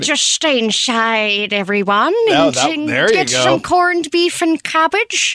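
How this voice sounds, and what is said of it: Holly Hunter impression, Irish accent, old-sounding. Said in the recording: “Can you do an Irish accent in Helen Hunt? ... Or Holly Hunter ... Holly Hunter as an Irish lady? ... her Georgia accent ... Holly sounds like Maggie Smith. She got old real fast.”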